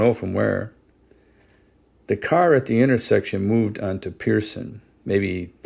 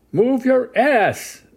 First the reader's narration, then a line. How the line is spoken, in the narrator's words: I could hear a man screaming